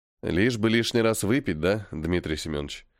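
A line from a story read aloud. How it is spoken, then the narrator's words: Quiet question. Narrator (Russian): Тихо спросил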